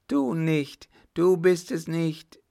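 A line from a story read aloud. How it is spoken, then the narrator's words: Sick man crying out. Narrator (German): rief der Kranke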